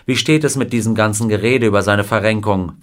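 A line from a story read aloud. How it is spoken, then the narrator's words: Plain. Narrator (German): fragte ihn Wilder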